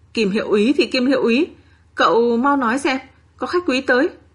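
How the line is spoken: Panicked, breathless. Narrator (Vietnamese): Trịnh Tiểu Liễu hốt hoảng ... thở hổn hển nói

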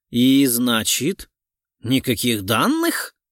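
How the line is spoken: Gruff mutter. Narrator (Russian): буркнул Орлов

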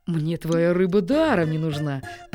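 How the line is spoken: Contemptuous snort. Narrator (Russian): презрительно фыркнул Смирре

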